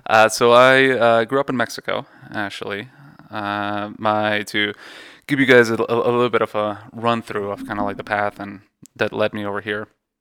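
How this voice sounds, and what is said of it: Slight foreign accent. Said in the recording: “I think I detect a hint of an accent”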